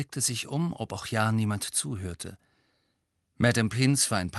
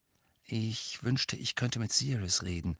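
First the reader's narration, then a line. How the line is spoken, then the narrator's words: Murmured. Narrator (German): murmelte er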